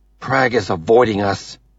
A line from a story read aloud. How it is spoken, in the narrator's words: Avi snaps